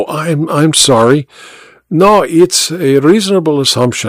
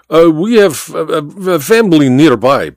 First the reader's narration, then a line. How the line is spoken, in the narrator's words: Baba stammered